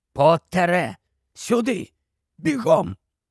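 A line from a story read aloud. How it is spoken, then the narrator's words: Hoarse voice. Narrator (Ukrainian): чийсь хриплий голос сказав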